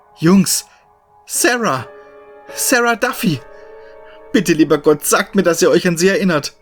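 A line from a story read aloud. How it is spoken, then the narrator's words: Practically screaming. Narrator (German): schrie ich praktisch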